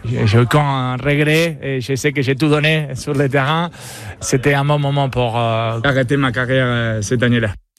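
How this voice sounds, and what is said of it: Foreign accent speaking fluent French. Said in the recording (French): “13 ans au MHB, c'est pas suffisant pour perdre son accent, mais non. On va dire qu'il parle quand même très bien français, Diego Simonet.”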